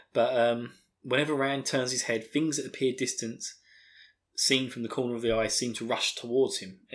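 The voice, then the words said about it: Essex accent, dropped T sounds. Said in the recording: “Why was I dropping the T? God, what is with my terrible Essex accent?”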